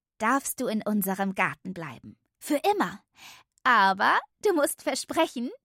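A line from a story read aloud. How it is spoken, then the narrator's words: Laughing addition. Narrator (German): fügte lachend hinzu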